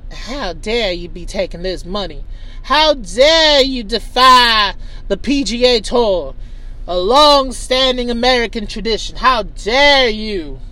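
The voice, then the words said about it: Put-on accent. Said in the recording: “Let me try another accent. ... I'm out of accents.”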